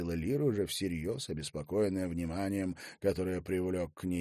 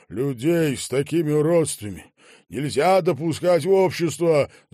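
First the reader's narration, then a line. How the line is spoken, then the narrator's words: Fat man's declaration. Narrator (Russian): заявил толстяк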